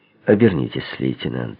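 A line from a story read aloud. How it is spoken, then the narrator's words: Quiet. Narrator (Russian): негромко произнес я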